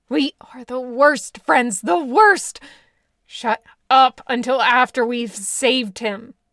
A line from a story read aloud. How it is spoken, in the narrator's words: Bill growled back